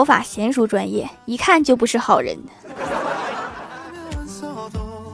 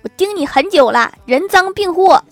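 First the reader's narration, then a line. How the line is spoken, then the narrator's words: Loud shout. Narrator (Chinese): 保安大声喊道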